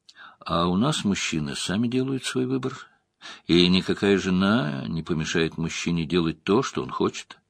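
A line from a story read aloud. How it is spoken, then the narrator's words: Quiet, hushed. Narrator (Russian): повинуясь яростной жестикуляции Лойла, заговорил тихо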